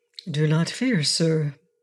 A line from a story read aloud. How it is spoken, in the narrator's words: answered Inga in a calm voice